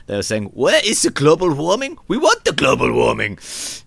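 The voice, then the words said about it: Put-on Icelandic accent. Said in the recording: “Is that an Icelandic accent? ... That was my Icelandic accent.”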